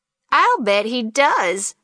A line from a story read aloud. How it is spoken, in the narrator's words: she chuckled lightly, freely